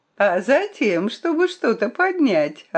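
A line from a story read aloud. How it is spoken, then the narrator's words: Cheerful reply. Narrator (Russian): ответил он весело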